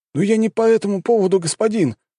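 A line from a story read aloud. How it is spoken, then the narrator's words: Pleading. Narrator (Russian): взмолился боец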